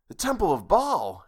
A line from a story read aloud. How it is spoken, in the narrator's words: exclaimed Steve